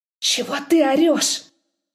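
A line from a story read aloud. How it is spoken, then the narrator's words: Nervous hiss into ear. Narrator (Russian): Прошипел ей на ухо, стараясь унять нервную дрожь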